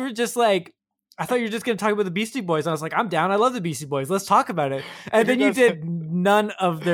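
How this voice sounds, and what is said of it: Usual voice. Nothing is said of it.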